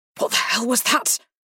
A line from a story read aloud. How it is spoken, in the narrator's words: he asked, his voice strained in the silence of the bedroom